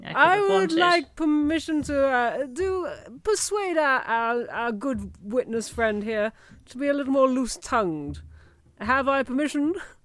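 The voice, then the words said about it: Posh character voice, froggy. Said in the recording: “It was very posh ... My voice is more frog today, like naturally”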